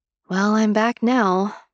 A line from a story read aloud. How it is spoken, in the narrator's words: I said, sighing